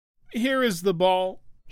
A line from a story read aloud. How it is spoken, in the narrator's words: cried